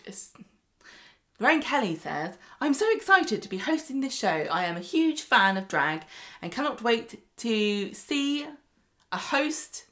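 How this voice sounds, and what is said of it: Scottish accent. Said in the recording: “use your amazing Scottish accent ... It's my accent.”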